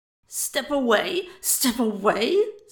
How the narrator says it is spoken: sputtered Buck

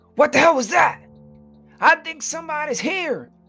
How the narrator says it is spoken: yelled the higher-pitched fellow

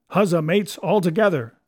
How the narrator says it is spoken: shouted Mary

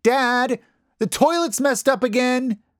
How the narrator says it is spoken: She yells

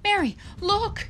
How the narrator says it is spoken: she cried

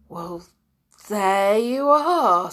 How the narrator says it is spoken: said Julian in a rather trembly voice

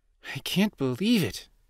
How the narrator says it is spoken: Navi exclaimed from inside his shirt pocket

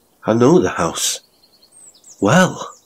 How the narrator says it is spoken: added in a gentler tone, as if he was remembering tenderly something happy about the place

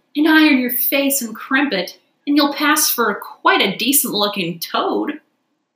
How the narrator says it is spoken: she called out

